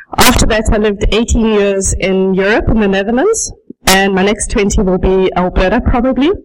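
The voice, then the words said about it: Slight South African accent. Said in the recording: “I speak with a bit of an accent because I was born and raised in South Africa.”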